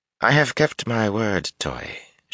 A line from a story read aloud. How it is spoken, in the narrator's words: she drawled